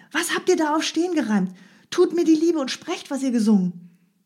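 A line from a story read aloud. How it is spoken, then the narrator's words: Calling out. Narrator (German): rief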